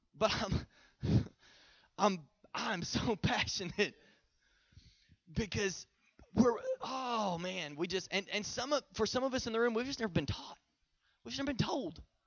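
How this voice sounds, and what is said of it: Strained, hoarse voice from preaching. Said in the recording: “Y'all got me up here sweating and losing my voice.”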